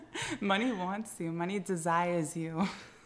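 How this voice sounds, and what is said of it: Sultry, seductive podcast voice. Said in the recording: “In my sexy podcast voice.”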